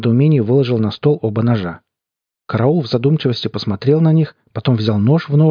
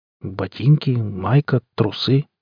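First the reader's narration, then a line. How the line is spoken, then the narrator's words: Confused. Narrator (Russian): сказал я растерянно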